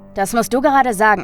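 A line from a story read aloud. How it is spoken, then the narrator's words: Mocking. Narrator (German): spottete der Elektriker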